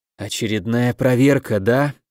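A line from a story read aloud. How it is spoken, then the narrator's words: Self-reassuring mutter. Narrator (Russian): прошептал я себе под нос, черпая в своих словах уверенности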